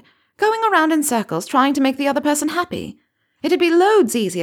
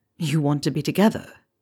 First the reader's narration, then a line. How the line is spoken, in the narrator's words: Draco said softly